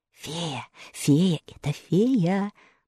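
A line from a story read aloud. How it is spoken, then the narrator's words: Whisper. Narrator (Russian): послышался шепот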